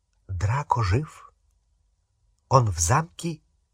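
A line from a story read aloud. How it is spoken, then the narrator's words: Faint whisper near ear. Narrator (Russian): Еле слышный шепот в дюйме от его уха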